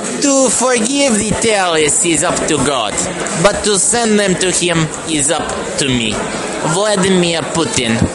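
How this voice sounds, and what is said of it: Impression of Vladimir Putin. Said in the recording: “I'm going to read it in my Putin voice.”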